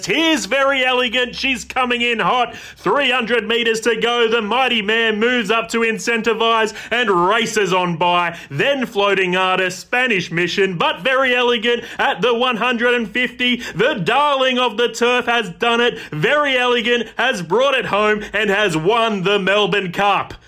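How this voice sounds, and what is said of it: Horse race caller impression. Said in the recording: “that was my impression of a race caller who backed the favourite”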